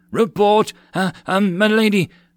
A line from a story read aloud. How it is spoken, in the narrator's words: the wild-eyed soldier stammered